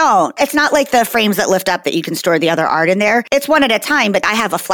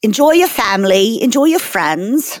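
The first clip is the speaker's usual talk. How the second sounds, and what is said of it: Put-on British accent. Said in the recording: “Kara's doing an accent for some reason. ... I just decided to do like a British thing for a second. ... It's a 2022 British send-off.”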